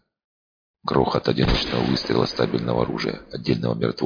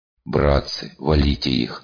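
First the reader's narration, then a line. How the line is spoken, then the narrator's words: Strained, in one breath. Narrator (Russian): на одном дыхании выдавил он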